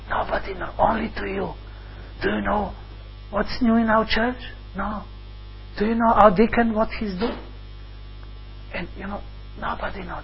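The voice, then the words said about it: Whispering. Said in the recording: “I'll whisper ... That's whispering.”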